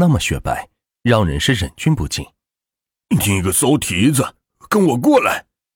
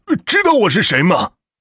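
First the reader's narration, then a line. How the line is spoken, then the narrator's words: Loud forceful shout. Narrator (Chinese): 肥仔用力的喊道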